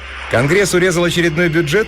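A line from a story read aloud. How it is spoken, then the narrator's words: Cheerful. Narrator (Russian): весело спросила Тесса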